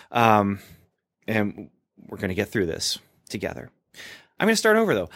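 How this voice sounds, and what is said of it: Strained, worn-out voice. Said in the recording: “My brain is fried. My voice is fried.”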